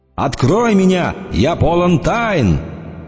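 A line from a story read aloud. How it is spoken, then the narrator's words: Loud shouting. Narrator (Russian): громко кричит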